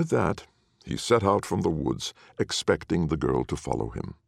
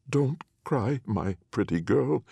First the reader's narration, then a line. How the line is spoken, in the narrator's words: said Anne of Rags, her voice now faltering a little